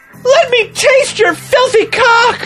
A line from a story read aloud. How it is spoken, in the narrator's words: I begged